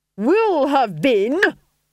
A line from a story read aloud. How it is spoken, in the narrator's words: snapped the Duchess